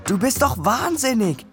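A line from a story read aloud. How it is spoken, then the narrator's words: Calling up from below. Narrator (German): rief ich ihm von unten zu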